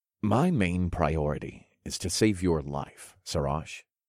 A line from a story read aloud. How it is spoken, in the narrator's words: I said in a soft voice